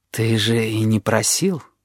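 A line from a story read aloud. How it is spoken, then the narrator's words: Gentle objection. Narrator (Russian): мягко возразил даритель амулета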